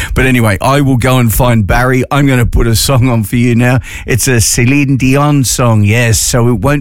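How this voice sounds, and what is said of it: Usual voice. Nothing is said of it.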